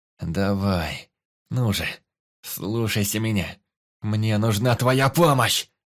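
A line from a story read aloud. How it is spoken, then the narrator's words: Through gritted teeth. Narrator (Russian): Сквозь зубы процедил я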